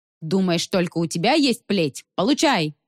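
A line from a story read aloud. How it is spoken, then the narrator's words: Yelling. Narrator (Russian): завопил Конёль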